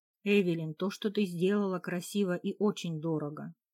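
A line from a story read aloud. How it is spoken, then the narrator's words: Calm speech. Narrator (Russian): он говорил спокойно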